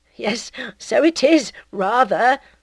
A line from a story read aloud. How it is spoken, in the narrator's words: said Charles, giggling stupidly